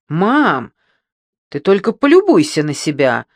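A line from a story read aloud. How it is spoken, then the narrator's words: Exclaiming. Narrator (Russian): воскликнула Пьета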